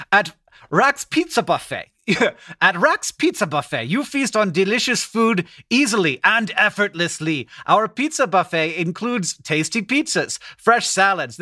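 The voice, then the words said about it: Attempted German accent. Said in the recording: “I'm going to read it to you in a German accent ... This isn't German at all.”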